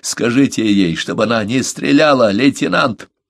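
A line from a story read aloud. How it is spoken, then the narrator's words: Hoarse shout. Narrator (Russian): хрипло крикнул Смэдж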